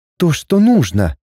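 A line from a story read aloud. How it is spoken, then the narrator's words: Relieved exclamation. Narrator (Russian): с облегчением воскликнула я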